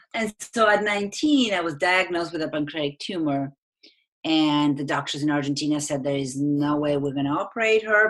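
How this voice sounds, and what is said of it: Argentine-accented English. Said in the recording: “I'm from Argentina. That's where my accent is from.”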